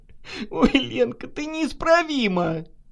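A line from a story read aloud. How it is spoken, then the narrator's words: Laughing. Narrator (Russian): засмеялась Наташа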